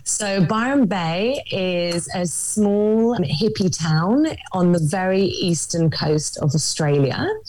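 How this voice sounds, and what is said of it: London English accent. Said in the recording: “I'm actually originally from London, in case you can't tell by my accent.”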